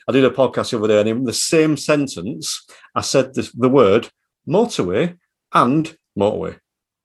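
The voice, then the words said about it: Broad northern Yorkshire accent. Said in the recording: “you can tell with the accent, there's nothing middle or upper class about me. It's broad northern Yorkshire”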